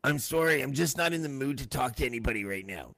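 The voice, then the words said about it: Imitates another person's voice. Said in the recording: “that is the first time I've attempted a Chris Sky impersonation. It might get better as the night goes on.”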